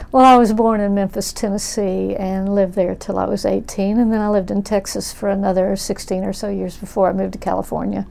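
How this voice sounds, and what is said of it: Slight Tennessee-Texas regional accent. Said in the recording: “I detect a little bit of an accent there. You still have it. ... both of those states have a bit of an accent that's different from California”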